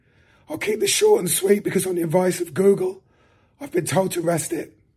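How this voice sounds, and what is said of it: Hoarse, cracking voice like breaking voice. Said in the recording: “As you can tell, I've lost my voice, but I've not lost it. It just sounds like an adolescent schoolboy's whilst it's breaking ... I'd love to have seen you do a set with that voice”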